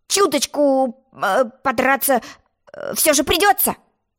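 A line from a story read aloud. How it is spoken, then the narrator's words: Uncertain. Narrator (Russian): неуверенно сказал Тец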